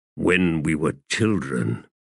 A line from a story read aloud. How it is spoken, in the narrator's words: he muttered